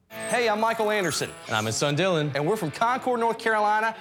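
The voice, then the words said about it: North Carolina Southern twang. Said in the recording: “They're obviously from North Carolina as well, as you will hear from the twang.”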